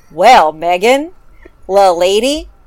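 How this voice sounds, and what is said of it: Exaggerated Southern US accent. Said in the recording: “This is going to be a very offensive Southern accent.”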